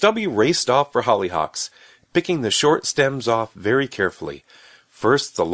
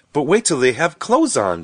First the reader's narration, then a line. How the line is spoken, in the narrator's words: said Rose happily